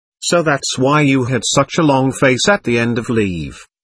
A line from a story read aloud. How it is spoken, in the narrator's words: said Hals